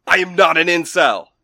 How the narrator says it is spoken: He shouted

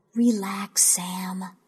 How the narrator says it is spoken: whispered

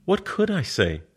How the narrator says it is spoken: Her voice is all astonishment

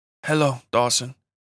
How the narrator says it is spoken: she said in her light Mexican accent

